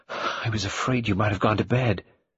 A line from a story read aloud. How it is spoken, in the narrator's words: The latter said breathlessly